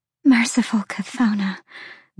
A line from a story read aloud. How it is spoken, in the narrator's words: the fawn breathed